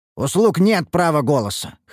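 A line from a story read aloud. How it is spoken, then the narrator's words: Snort. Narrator (Russian): хмыкнул я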